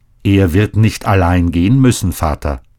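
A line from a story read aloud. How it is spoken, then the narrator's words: Calm. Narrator (German): sagte Scheiner ruhig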